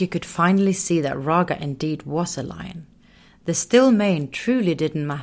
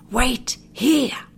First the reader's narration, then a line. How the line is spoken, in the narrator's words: Raga had whispered